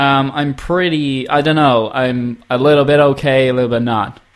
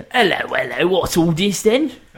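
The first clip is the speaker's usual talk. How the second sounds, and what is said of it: Bad put-on British accent. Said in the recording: “I can do a really bad British accent. ... That's horrific.”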